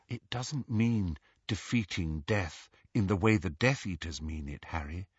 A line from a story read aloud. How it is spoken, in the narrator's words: said Hermione, her voice gentle